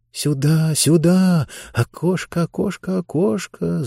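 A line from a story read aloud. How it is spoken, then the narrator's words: Coaxing whisper. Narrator (Russian): зашептала она, словно подзывая цыплят с утятами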